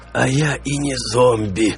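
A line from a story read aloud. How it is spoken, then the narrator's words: Wretched creaking voice. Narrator (Russian): проскрипело несчастное существо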